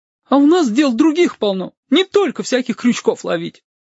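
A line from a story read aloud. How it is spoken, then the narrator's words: Offended low voice. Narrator (Russian): обиженным баском добавила девица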